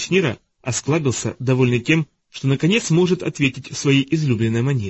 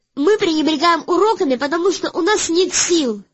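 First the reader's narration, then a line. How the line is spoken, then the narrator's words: Shouting. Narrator (Russian): закричала Вайлет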